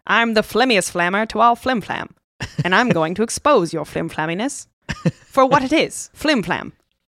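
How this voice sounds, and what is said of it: Put-on transatlantic accent. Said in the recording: “I can just hear it so perfectly in the transatlantic accent.”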